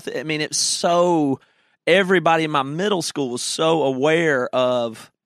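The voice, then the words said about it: Southern US accent. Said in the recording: “I have a Southern accent”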